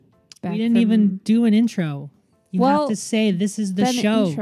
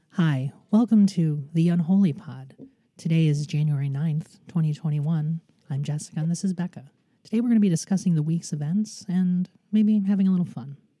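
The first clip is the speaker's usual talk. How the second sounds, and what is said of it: Polished radio host voice. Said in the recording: “That's my radio voice.”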